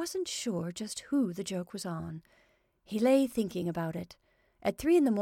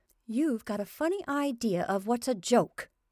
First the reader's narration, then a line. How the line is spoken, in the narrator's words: his wife said indignantly